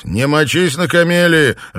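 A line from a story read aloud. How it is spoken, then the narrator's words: Absent-minded shout. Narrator (Russian): рассеянно крикнул ему вслед Данрос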